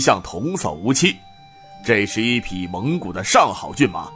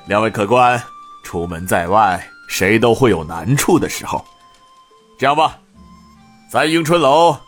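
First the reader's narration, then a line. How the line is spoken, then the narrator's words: Cheerful chuckling. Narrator (Chinese): 他笑呵呵的道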